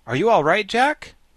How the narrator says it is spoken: he called out to the Pumpkinhead

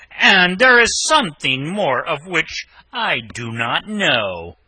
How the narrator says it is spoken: said the ogre, looking fiercely at his wife

